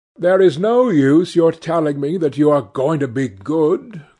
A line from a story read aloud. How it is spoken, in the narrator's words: cried Lord Henry